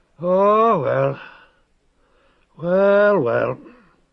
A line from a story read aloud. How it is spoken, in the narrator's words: the eunuch sighed